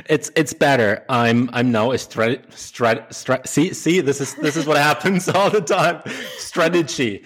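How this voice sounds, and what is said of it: German accent in English. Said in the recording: “this is not a word that goes well with a German accent”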